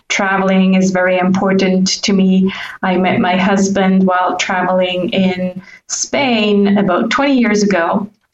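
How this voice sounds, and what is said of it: North American English accent. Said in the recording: “I'm a Swiss national who doesn't sound Swiss. I've been told that I sound Californian / Canadian ... my Canadian accent”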